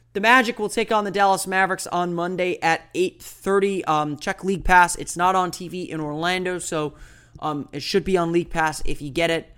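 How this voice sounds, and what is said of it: Voice slightly off, unwell. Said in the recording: “my voice is a little bit off today. I am a little bit under the weather”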